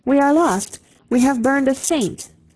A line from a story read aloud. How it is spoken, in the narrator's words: an Englishman cried out